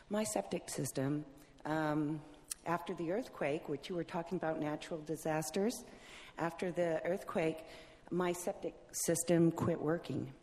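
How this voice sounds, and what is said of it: Speaking too loudly. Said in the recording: “I'm talking too loud”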